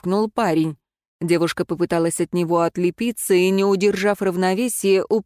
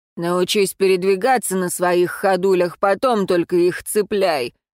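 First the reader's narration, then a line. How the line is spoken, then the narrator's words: Displeased grumbling growl. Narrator (Russian): пробурчал брюнет недовольно и снова рыкнул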